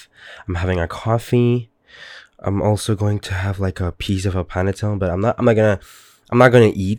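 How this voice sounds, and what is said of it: Rough voice with a cough. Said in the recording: “my voice is not very good today. I have a cough.”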